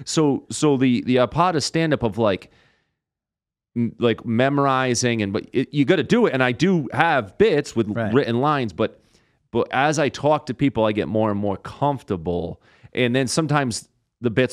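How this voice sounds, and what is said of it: Rhode Island accent. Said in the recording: “instantly mock my accent ... my accent ... I'm from Rhode Island and how I talk”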